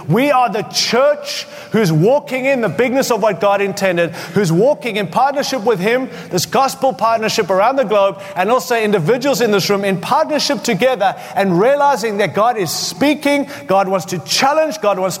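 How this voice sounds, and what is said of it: Mixed African Australian accent. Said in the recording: “a funny uh, uh, uh, African Australian mixed up accent”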